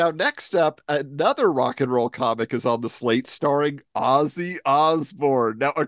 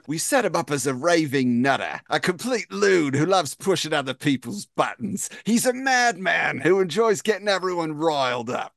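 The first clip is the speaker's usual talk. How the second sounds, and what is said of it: Put-on British accent. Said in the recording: “That was pretty good, by the way. ... I don't usually do the British accents, but I might start.”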